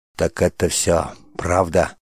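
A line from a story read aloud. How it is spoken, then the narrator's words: Crushed, grief-stricken voice. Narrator (Russian): Упавшим голосом спросил убитый горем отец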